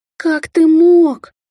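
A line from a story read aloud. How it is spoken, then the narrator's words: Sobbing. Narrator (Russian): всхлипнула сестра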